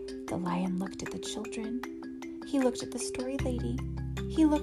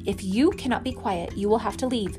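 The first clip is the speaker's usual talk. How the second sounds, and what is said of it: Stern voice. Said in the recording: “she said in a stern voice.”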